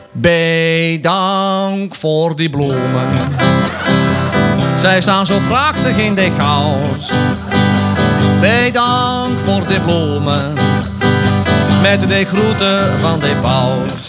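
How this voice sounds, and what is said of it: Singing in a Polish accent. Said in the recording (Dutch): “hij moet wel met een, eh, in het Pools worden meegezongen. Althans, met een Pools accent.”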